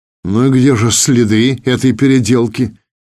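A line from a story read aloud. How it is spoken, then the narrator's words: Skeptical snort. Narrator (Russian): скептически хмыкнул Игнат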